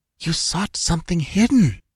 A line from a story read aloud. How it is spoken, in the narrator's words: whispered Tassela, cringing back